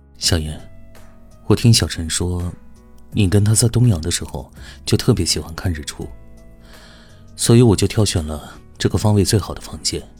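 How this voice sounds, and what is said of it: Gentle, tender voice. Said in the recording (Chinese): “温柔的声音说”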